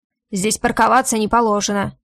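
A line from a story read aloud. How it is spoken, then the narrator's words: Irritated barking. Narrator (Russian): раздраженно рявкает тот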